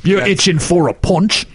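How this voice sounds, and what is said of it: Bad put-on British accent. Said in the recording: “That is literally the worst accent, worse than anything I've ever seen... You might beat Dick Van Dyke with that one... You might have just offended every British audience member we have.”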